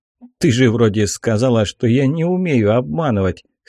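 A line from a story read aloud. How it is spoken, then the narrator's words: Wry hmph. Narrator (Russian): хмыкнул я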